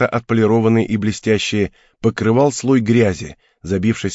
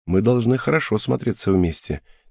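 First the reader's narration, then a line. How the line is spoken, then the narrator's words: Quiet, smiling. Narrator (Russian): тихо сказала Киута, улыбаясь мне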